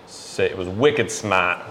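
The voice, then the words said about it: New England accent. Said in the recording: “quite the New England accent”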